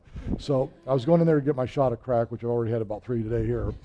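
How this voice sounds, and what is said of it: Very fast speech. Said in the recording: “why I'm talking so fast.”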